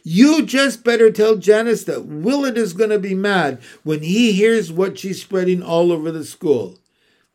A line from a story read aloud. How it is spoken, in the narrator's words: Billy hollered to Wilma